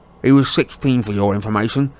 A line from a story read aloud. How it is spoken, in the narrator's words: snarled Dudley